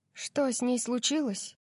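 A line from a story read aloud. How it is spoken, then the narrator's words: Soft. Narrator (Russian): мягко спросила я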